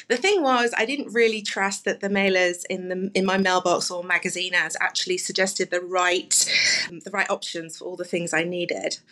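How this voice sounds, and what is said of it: London English accent. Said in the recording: “I moved from London 9 years ago, as you can probably tell from my accent”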